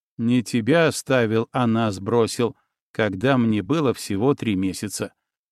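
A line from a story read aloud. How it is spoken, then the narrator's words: Gloomy correction. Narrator (Russian): мрачно поправил Никита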